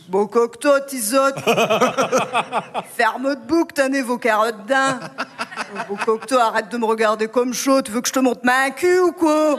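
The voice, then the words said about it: Put-on broad ch'ti northern French accent. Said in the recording (French): “je retrouve mon accent ch'ti et mon côté beauf”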